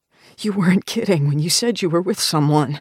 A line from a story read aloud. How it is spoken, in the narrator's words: Zed stammers, his head tilted back to relieve the pressure from Tung's knife